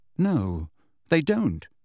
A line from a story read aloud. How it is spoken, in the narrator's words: said Harry, his jaw set and his fingers clenched tightly